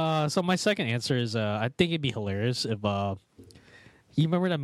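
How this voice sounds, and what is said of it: Usual voice. Nothing is said of it.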